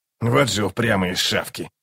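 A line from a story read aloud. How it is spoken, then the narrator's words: Mumbling. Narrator (Russian): пробормотал Локон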